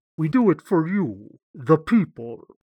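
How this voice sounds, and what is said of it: Imitates another person's voice. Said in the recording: “What was that saying accent there?”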